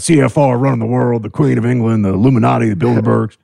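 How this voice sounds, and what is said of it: Imitates another person's voice. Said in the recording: “That's a good imitation.”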